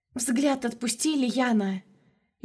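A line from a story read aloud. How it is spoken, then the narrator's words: Frightened whisper. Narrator (Russian): Испуганно прошептала рядом троюродная сестрица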